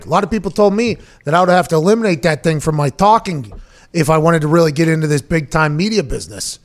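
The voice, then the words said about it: Strong Pittsburgh Yinzer accent. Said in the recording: “Is your Yinzer accent? You accentuate it for the air at times ... Pittsburghese”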